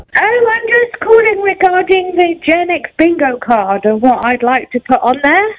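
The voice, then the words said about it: British accent. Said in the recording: “you can't tell by my beautiful accent? ... it could be one of three British people I know”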